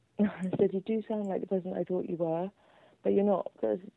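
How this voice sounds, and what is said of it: British accent. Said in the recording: “the British accent ... Every time I hear it”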